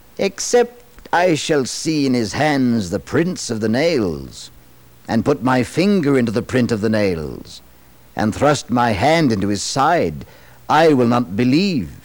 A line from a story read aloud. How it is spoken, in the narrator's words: Incredulous and shocked, scornfully and said